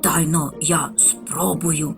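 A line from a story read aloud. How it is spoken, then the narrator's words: Whispered reply. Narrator (Ukrainian): так само пошепки відповів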